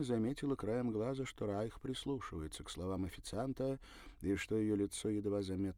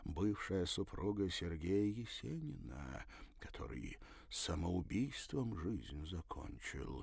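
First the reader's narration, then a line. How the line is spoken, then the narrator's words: Very quiet. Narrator (Russian): совсем тихо добавил он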